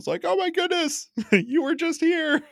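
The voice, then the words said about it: Imitates an excited stadium crowd. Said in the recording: “great impression ... A great impression of the entire stadium full of fans.”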